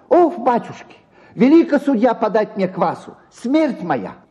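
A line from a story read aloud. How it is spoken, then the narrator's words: Shrill squealing tenor. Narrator (Russian): заговорил визгливым тенором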